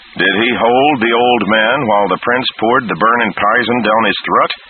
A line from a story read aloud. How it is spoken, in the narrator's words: one of the others called out in turn